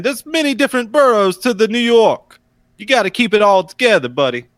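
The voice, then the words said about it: Over-exaggerated Brooklyn New York accent. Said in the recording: “You sound like you're trying to do an over-exaggerated New York accent. ... It's a Brooklyn accent.”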